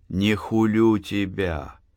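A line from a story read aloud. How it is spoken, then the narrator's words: Gentle reply. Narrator (Russian): мягко ответила Анна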